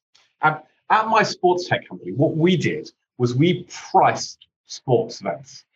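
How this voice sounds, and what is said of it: British English accent. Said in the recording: “you may not be able to tell this from my accent, but I'm actually not American. I'm actually British”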